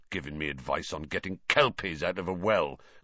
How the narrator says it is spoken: growled Hagrid

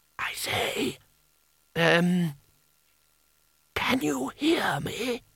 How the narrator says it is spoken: whispered

